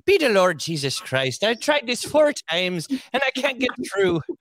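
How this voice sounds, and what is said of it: Put-on Irish accent imitating someone. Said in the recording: “I like to uh, try try to you know impersonate ... I can get this Irish accent”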